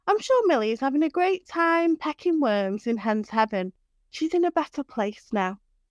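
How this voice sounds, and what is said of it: Reassuring teacher voice. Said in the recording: “put on my reassuring teacher voice”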